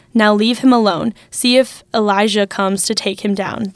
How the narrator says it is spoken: he said

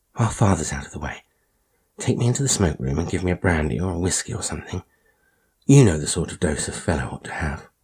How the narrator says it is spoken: he whispered

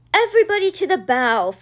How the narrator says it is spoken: Florence shouted

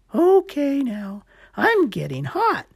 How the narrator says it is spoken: Gecko exclaimed

